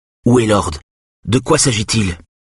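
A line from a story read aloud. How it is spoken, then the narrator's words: Unsteady voice. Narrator (French): dit d'une voix instable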